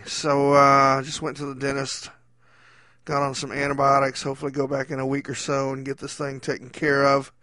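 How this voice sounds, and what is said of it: Muffled, mumbling speech. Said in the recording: “tell from my voice. I'm currently doing my best impression of Marlon Brando in The Godfather ... I feel like I have a golf ball in my cheek”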